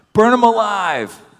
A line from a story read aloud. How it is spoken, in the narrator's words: other voices shouted